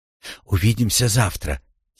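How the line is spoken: Quiet. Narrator (Russian): тихо сказала Рошель

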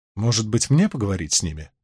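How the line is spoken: Gentle but insistent. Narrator (Russian): предложила Илайн мягко, но настойчиво

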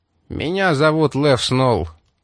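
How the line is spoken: Gloomy gangster's reply. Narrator (Russian): мрачно ответил гангстер

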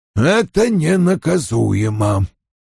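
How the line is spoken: Condescending mutter. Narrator (Russian): Вульф снизошел до них, пробормотав

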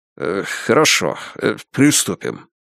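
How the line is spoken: Muttered, stammering. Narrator (Russian): пробормотал, заикаясь, Нолан

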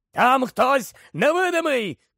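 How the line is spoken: Masked man's shout. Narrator (Ukrainian): крикнув смертежер у масці

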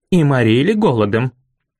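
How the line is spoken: Angry bark. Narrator (Russian): Зло рявкнула мистрис Лоусон

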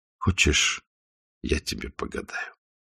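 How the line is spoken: Quiet question. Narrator (Russian): тихо спросил Исаев

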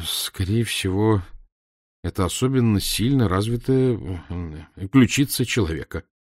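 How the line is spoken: Mumbled. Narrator (Russian): промямлил я

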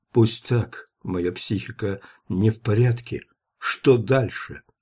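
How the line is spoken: Trembling voice. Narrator (Russian): он произнес дрожащим голосом

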